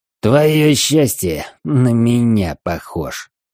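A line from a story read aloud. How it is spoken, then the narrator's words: Grumbling. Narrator (Russian): проворчал он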